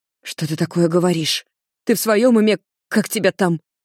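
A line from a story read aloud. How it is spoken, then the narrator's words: Hissing. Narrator (Russian): С шипением Ди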